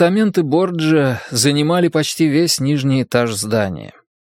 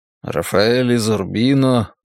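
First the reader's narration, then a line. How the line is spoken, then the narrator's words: Muttering under breath. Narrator (Russian): пробормотал Десоя себе под нос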